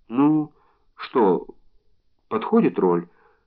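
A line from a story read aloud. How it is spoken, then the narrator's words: Timid question. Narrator (Russian): робко спрашивает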